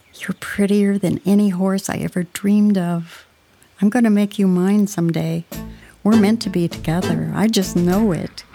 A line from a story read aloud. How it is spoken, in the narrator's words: She murmured softly